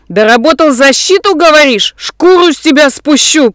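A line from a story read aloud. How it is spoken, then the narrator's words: Spitting furious yell. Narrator (Russian): Плюясь слюной, орал Курт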